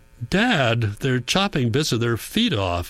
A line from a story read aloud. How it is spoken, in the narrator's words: Hans shouts